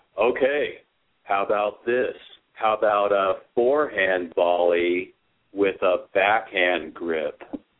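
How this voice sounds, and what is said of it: Impression of Henry Kamakana. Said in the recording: “my Henry Kamakana impression”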